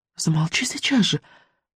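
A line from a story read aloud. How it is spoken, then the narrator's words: Urgent whisper. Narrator (Russian): прошептала Мелисенда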